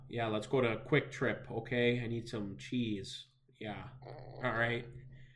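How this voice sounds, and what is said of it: Put-on Wisconsin accent. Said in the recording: “sounded like a total Wisconsinite ... That was my Wisconsin impression.”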